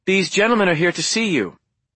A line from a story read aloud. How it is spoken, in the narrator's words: said Darlene too loudly